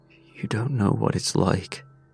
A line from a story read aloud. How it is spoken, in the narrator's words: I whispered